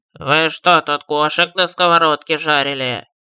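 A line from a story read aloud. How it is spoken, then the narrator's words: Nasal, sullen question. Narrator (Russian): Гнусаво спросил лакир, угрюмо глядя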